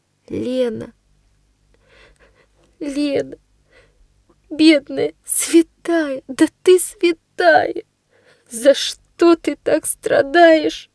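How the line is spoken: Sobbing. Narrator (Russian): рыдает она

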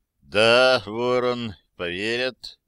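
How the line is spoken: Muffled, hollow voice. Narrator (Russian): наконец глухим голосом сказал он

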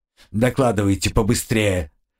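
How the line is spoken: Irritated. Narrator (Russian): раздраженно добавил он

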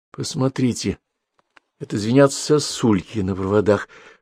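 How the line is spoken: Whisper. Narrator (Russian): шептом сказала Зина

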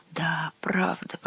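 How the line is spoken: Mutter. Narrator (Russian): пробормотал Гюнтер

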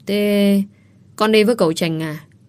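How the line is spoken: Hesitant stammer. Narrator (Vietnamese): bà Mười ấp úng

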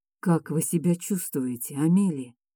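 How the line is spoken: Duke speaking quietly. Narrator (Russian): тихо произнес герцог

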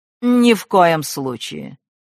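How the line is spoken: Dry, madwoman. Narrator (Russian): сухо отвечала безумица

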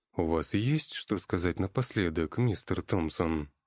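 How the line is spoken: Lifeless flat question. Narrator (Russian): спросил он прежним безжизненным тоном

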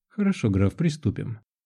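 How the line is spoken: Plain, young man. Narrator (Russian): ответил юноша Индия

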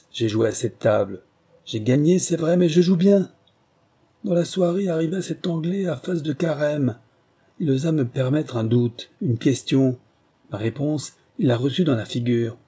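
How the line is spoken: Shouting. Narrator (French): vociféra le prince

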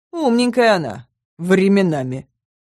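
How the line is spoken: Werewolf's snort. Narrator (Russian): хмыкнул оборотень

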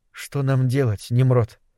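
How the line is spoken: Barely audible. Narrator (Russian): едва слышно произнесла она

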